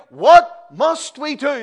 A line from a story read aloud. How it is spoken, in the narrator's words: Men literally cried out